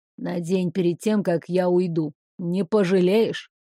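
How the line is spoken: Whispered. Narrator (Russian): Морская ведьма шепнула

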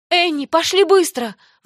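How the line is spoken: Pleading. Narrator (Russian): взмолилась Даяна

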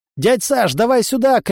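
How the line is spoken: Shout. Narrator (Russian): крикнул Влад

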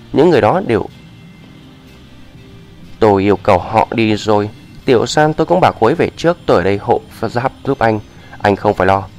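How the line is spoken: Smiling. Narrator (Vietnamese): Ngũ Vũ Thiên mỉm cười

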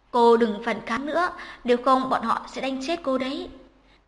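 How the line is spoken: Fearful, hesitant. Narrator (Vietnamese): Các hộ sĩ đều đang cực kỳ sợ hãi, tất cả nhìn nhau một lúc lâu mới nói

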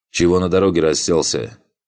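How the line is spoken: Shouted call. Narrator (Russian): окрикнул чей-то голос

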